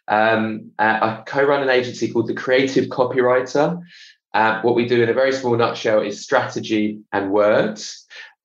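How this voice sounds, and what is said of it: British accent. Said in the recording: “You may be able to tell from my accent, I'm over the other side of the pond ... based here in London”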